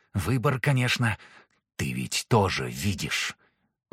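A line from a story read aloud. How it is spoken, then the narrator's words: Whispered through teeth. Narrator (Russian): Вдруг сквозь зубы прошептал Алистер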